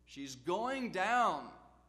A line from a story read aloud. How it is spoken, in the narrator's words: The shout went out